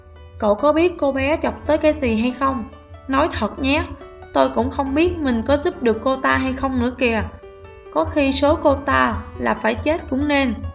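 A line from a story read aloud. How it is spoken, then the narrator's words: Sighing. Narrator (Vietnamese): Bạch Dực thở dài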